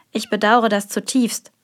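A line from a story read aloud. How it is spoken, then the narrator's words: Quiet servant. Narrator (German): sagte der Diener leise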